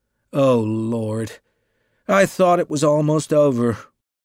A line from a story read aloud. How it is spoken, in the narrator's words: groaned the novelist